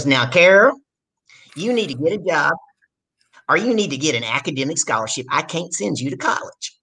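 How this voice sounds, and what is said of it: Imitates a strong Southern accent. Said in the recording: “My dad's got a really southern accent”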